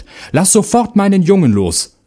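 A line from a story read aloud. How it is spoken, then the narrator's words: Woman calling out. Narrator (German): rief sie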